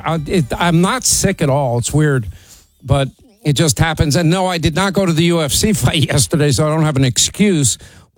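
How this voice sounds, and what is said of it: Slightly sore voice. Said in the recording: “My voice is a little sore.”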